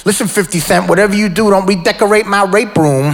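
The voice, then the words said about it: Mike Tyson impression. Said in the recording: “to do a Mike Tyson impression.”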